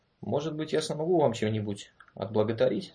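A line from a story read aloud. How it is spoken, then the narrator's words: Calm. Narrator (Russian): сказал он спокойно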